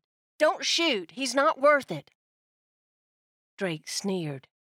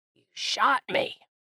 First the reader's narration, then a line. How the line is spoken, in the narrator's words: he croaked